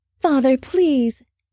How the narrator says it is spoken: Naima pleaded softly

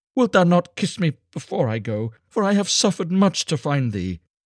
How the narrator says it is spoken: she cried

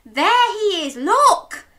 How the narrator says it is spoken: Daisy yelled

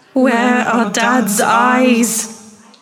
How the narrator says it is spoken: moaned

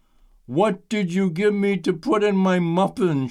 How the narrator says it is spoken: she croaked

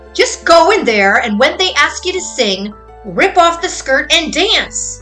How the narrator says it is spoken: Her mother suddenly yelled at her

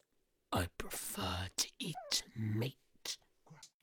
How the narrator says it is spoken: growled the wolf, who was forgetting his disguise because he was so hungry

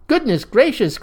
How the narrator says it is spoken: cried

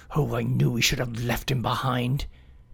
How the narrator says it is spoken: reluctantly and muttered to himself

